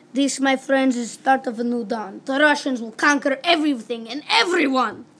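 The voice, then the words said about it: Ominous voice, heavy Russian accent. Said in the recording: “the same ominous tone and heavy Russian accent”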